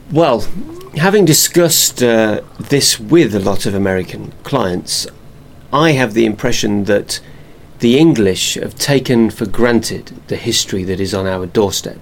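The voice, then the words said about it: English Northamptonshire accent. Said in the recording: “judging by your accent, I would imagine that's somewhere in Northamptonshire.”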